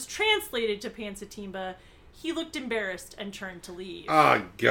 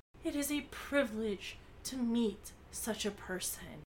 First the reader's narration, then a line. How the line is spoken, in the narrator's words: Bess's eyes suddenly became dewy, and she murmured